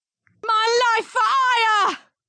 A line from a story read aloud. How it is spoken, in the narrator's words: Christina yelled